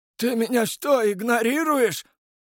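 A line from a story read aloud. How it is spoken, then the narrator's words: Bald man shouting. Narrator (Russian): закричал лысый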